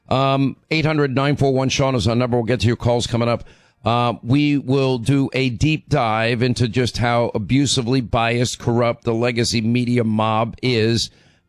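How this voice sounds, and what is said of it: Hoarse, laryngitis-affected voice. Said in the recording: “I don't want to hear it about my laryngitis.”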